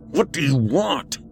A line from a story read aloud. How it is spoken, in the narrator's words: he growled